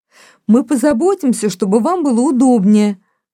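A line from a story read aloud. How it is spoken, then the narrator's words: Shout. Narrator (Russian): крикнула Элинор старухе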